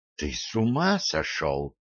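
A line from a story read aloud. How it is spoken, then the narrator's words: Whisper. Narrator (Russian): только и прошептала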